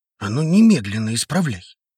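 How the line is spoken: Hissed. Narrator (Russian): прошипел он

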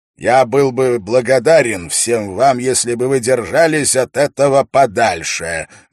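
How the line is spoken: Loud and clear. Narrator (Russian): громко и четко произнес Дункан

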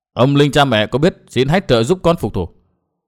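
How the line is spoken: Thin cold laugh. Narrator (Vietnamese): Nguyên Bình cười nhạt

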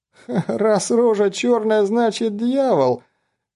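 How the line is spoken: Forced out between laughs. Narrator (Russian): выдавил он в перерыве между приступами смеха

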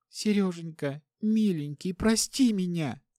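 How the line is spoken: Sobbing. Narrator (Russian): Вновь всхлипнула Настя

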